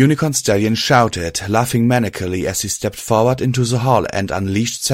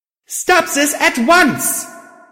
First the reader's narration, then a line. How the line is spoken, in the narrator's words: yelled, putting as much force into my voice as possible